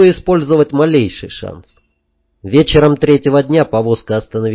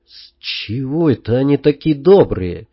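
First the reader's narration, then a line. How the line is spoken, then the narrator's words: Through gritted teeth. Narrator (Russian): процедила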